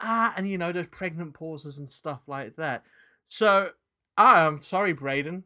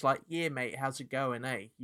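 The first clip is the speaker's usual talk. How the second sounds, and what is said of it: Put-on strong New Zealand accent. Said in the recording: “a New Zealand accent like Tom's ... very staunch”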